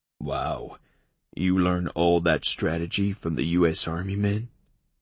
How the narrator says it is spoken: I grunted in amusement

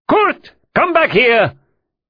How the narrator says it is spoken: Müller called out

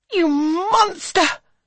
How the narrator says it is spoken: cries the mamma

